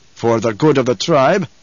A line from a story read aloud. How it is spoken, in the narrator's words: Stilgar growled